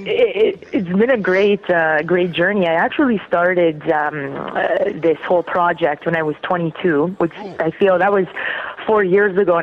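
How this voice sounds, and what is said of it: Slight Canadian accent. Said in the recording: “I have a little Canadian accent that everyone always asks me about.”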